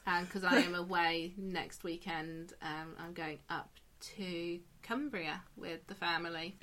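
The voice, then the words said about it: Hoarse voice. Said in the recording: “I'm sounding a bit hoarse ... I've also got a bit of a sore throat and cold”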